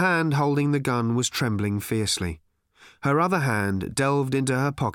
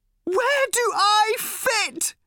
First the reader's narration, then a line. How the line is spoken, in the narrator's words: screamed Random suddenly